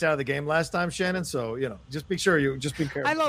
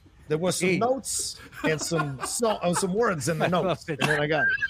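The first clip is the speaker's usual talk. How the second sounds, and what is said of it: Put-on movie-gangster style accent. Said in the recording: “You're an extra in My Blue Heaven. That's how good that accent is.”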